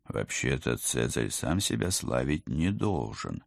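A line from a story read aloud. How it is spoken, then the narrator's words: Uncertain remark. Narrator (Russian): неуверенно заметил Алекс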